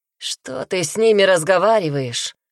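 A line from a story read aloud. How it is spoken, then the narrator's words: Hoarse rasp. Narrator (Russian): прохрипел тип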